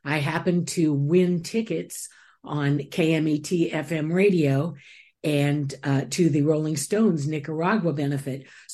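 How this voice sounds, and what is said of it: Velvety radio voice. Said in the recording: “your beautiful velvety voice ... a great radio voice”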